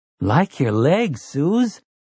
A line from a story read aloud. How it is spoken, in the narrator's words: Jake said, and the perfunctory quality of this compliment